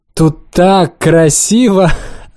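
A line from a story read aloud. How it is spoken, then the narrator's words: Tipsy laughter. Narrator (Russian): Она засмеялась нетрезвым смехом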